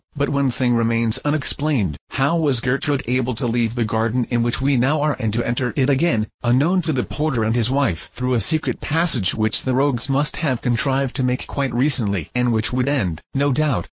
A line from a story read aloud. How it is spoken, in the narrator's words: said Girl